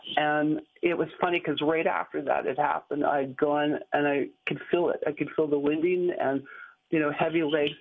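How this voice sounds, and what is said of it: Croaky, frog-like voice. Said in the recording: “I sound a little bit like a frog because I'm still getting over that ... I sound like a little frog still”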